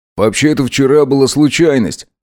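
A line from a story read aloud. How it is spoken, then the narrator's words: Snort. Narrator (Russian): хмыкнул Макс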